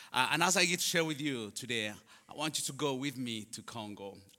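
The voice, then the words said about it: Ugandan English accent. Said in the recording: “as you can tell, my accent is different ... I am from Uganda”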